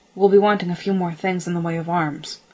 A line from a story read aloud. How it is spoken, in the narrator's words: he snapped